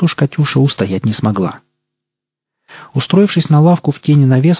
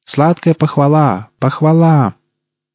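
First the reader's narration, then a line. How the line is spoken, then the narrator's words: Girl's loud proclamation. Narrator (Russian): девушка громко провозглашая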